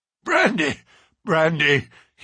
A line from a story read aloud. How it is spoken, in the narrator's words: gasped, groaning